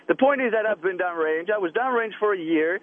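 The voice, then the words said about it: Speaks with a noticeable accent. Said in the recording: “Then what's with the accent? ... you forget about his accent.”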